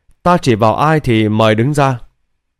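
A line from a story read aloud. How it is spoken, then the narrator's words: Smiling. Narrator (Vietnamese): Lý Bình An thì mỉm cười ... nói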